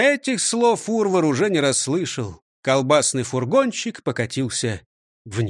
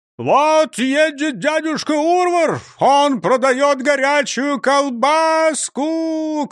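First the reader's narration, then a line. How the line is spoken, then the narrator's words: Shouting. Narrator (Russian): кричал Урвар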